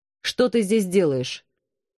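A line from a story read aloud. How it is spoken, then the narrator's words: Menacing question. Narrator (Russian): грозно спросил он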